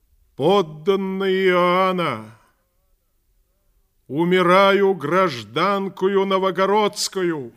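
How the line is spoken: Loud address to crowd. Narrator (Russian): громко сказала народу

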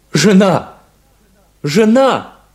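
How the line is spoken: Shout. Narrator (Russian): крикнул Шарль

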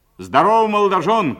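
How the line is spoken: Shouted. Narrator (Russian): крикнул Воронов

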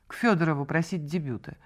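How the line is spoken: Icy tone. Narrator (Russian): ответила она ледяным тоном

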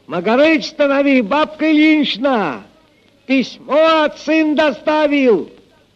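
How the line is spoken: Shout from afar. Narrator (Russian): еще издали крикнул

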